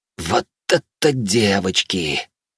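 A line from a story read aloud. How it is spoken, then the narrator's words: Shocked, breathless. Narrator (Russian): потрясенно выдохнул Канс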